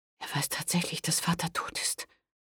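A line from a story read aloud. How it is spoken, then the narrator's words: Whispering. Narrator (German): flüsterte Pandolfina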